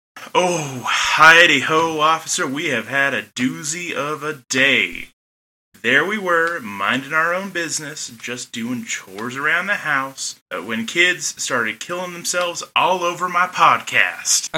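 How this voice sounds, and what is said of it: Shifts into a put-on hillbilly accent. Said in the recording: “you gradually started in your normal accent and then turned into a hillbilly accent.”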